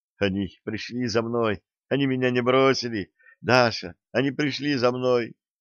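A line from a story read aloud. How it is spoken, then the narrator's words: Smiling whisper. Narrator (Russian): Улыбаясь, он лишь шептал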